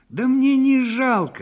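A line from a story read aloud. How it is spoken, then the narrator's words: Desperate shout. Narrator (Russian): с отчаянием выкрикнул ему вслед управдом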